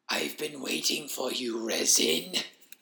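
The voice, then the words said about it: Wheezing, crackling character voice. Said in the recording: “The voice wheezed in a crackling tone through the lumps in its throat.”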